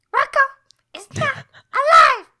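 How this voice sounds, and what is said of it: Elmo character voice. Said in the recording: “my Elmo impression.”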